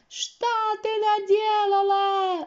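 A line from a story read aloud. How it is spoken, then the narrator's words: Sorceress shrieking. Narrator (Russian): завизжала волшебница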